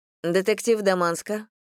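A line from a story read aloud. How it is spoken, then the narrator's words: Calm. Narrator (Russian): спокойно произнесла она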